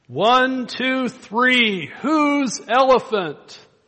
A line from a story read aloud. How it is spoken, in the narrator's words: the villagers, somebody begins to shout